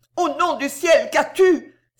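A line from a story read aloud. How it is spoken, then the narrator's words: Old woman exclaiming anxiously. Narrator (French): s'écria la grand-mère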